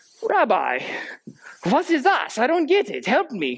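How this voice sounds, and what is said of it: Put-on German accent. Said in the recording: “German accent. ... That was weird.”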